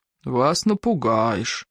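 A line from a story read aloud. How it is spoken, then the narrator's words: Sighing. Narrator (Russian): вздохнул завхоз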